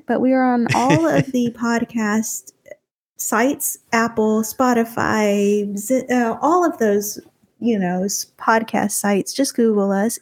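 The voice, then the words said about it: Slow Texas accent. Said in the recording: “my slow Texas accent”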